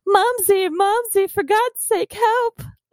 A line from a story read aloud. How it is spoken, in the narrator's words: Judd became terrified and let out a whining scream